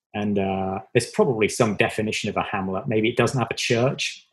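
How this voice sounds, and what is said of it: Southwest English accent. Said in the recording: “where is that accent from? ... It's from England. It's from the very southwest of England. I was born in Devon.”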